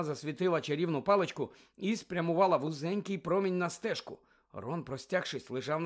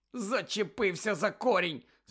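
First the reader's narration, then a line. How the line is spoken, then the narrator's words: Angry explanation. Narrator (Ukrainian): сердито пояснив він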